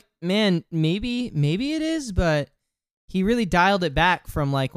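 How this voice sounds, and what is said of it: Usual voice. Nothing is said of it.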